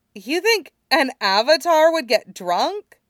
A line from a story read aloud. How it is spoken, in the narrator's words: Teo sputtered